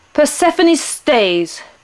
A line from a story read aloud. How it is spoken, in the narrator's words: Pluto shouted